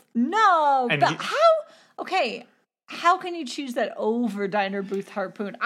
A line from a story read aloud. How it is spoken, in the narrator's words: I shrieked